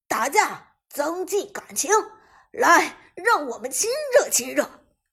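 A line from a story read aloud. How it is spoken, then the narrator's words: Angry roar. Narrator (Chinese): Prime 战队这边野区中一声怒吼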